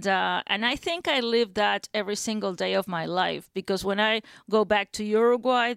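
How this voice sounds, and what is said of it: Noticeable foreign accent. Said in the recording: “I still have an accent, and that's obvious ... oh, what a pretty accent”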